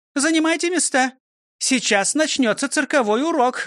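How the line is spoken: Loud announcement. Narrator (Russian): громко объявила она

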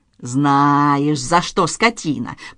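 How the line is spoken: Professor hissing. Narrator (Russian): прошипел профессор

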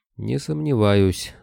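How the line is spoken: Sleepy grumble. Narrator (Russian): засыпая, буркнул Кобылин

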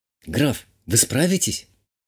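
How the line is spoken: Barely audible question, baroness. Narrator (Russian): чуть слышно задала вопрос баронесса

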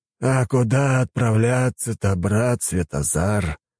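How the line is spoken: Elder's sigh. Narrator (Russian): вздохнул старейшина

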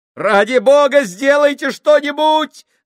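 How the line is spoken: Shouting. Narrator (Russian): закричал Джордж

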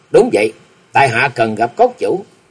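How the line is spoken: Smiling. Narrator (Vietnamese): Lý Mộng mỉm cười

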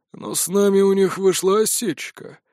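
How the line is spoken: Grim, smiling. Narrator (Russian): мрачно улыбнулся Лиман

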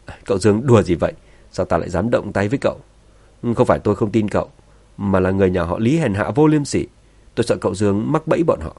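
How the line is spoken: Laughing. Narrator (Vietnamese): Thượng quan hoàng cười phá lên, cười nói

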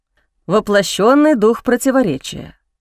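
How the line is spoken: Dragon's wry snort. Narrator (Russian): хмыкнул дракон

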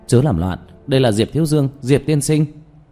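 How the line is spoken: Shouting. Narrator (Vietnamese): la hét

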